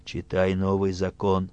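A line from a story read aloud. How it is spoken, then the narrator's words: Quiet. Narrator (Russian): Ратибор тихо говорит писцу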